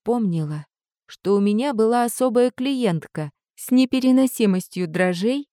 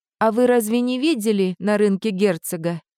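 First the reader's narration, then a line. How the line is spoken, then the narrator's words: Plain. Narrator (Russian): спросила я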